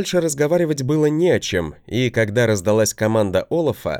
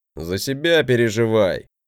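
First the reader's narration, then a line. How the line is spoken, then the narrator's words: Grumbling. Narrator (Russian): проворчал он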